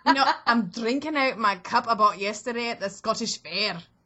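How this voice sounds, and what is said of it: Comedic put-on Scottish accent. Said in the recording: “it definitely sounded like a comedy Scottish accent, but it was good.”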